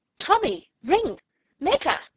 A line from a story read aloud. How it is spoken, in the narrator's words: Bart ... cried out in amazement